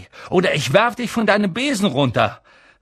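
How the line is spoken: Calling out. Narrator (German): rief Harry

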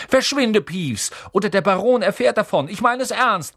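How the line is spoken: Sharp barking. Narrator (German): bellte Percy

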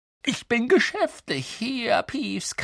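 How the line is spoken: Croaked. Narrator (German): krächzte Harry

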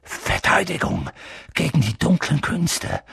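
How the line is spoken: Reluctant murmur. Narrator (German): murmelte Professor Quirrell, als ob er lieber nicht daran denken wollte

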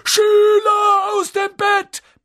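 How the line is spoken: Bellowing. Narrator (German): brüllte Peeves

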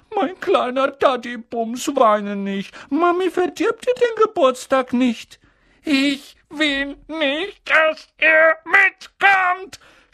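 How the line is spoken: Shouting with fake sobs. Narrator (German): schrie Dudley zwischen den markerschütternden falschen Schluchzern

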